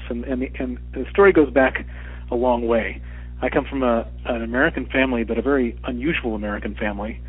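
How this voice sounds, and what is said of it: American accent. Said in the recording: “a mild-mannered guy with an American accent”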